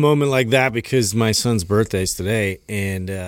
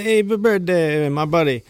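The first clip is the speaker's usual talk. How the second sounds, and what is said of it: Put-on Italian-sounding accent. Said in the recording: “You're Italian. ... We went from Irish to Italian all of a sudden. ... you fucked up your accent.”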